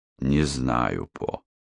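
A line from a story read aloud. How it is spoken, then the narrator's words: Tired reply. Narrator (Russian): устало ответил Иверсон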